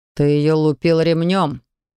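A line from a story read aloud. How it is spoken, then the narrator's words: Through gritted teeth. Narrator (Russian): процедил Виталик, буравя отца таким ненавидящим взглядом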